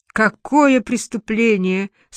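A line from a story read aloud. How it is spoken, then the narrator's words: Moaning. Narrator (Russian): стонала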